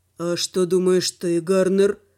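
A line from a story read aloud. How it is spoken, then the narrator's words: Tired question. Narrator (Russian): спросил Руфим, устало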